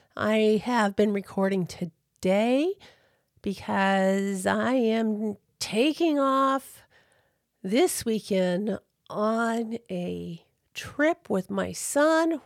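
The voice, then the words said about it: Sick-sounding voice. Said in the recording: “I have been sick. You could probably hear that in my voice.”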